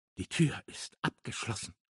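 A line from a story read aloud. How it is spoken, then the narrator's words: Whispering. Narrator (German): flüsterte er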